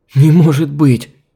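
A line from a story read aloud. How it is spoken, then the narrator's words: Shocked breathless exhale. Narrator (Russian): потрясённо выдохнула Алиса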